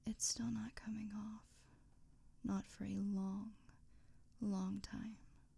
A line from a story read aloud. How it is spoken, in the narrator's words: I whispered in his ear